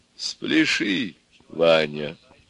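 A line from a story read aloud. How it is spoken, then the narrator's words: Soft and gentle. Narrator (Russian): тихо и ласково сказала самая умная голова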